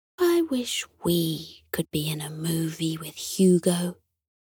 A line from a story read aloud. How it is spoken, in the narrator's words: Sunny sighed wistfully and whispered to Hector